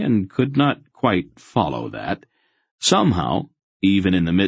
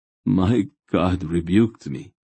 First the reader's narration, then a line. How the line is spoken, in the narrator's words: Relg groaned, his voice sinking into a kind of sick self-loathing